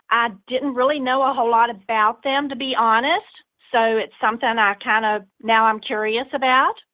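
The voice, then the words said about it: Speaker with a noticeable accent. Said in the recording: “I love your voice. I love this accent.”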